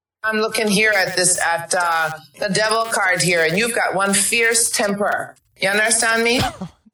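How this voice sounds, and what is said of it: Jamaican accent. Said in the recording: “a delightful Jamaican accent. ... She's nailing it.”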